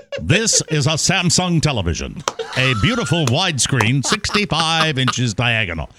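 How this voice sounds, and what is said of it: 1950s announcer voice. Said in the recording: “I used my 1950s announcer voice.”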